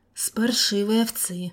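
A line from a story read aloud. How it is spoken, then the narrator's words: Sigh. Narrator (Russian): вздохнул Виктор Борисович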